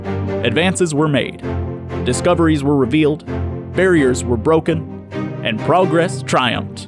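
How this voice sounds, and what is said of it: Bad Barack Obama impression. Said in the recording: “my terrible Barack Obama impression”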